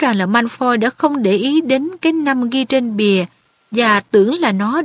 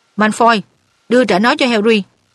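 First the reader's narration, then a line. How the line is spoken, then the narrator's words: Stern. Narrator (Vietnamese): Percy nghiêm nghị bảo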